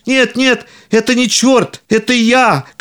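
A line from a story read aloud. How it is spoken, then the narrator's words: Shouting. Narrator (Russian): кричал Пономарь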